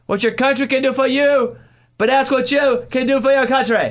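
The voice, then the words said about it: JFK impression with his accent. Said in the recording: “And I did the accent. ... JFK ... that impression yes! was good.”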